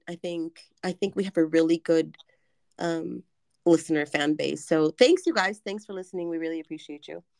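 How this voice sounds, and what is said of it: Hoarse, croaky voice. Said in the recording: “the frog in your throat”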